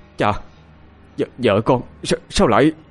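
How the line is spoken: Stammering, near tears. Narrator (Vietnamese): đôi mắt đỏ ngầu muốn khóc, anh ta không nói lên thành tiếng, chỉ lắp bắp hỏi

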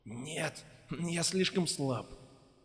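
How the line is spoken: Hoarse rasp. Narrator (Russian): прохрипел Бенедикт

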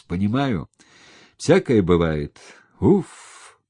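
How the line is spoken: Sigh. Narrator (Russian): вздохнул Громов

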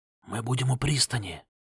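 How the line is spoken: Whispered. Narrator (Russian): шепнул Варк

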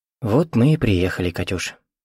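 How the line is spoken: Soft. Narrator (Russian): мягко сказал он

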